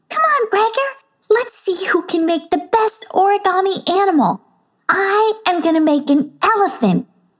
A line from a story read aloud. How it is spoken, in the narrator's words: squealed Dilly Dally